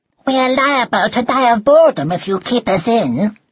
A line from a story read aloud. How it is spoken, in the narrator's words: they squeaked